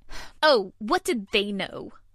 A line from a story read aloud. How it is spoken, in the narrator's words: Sheila snapped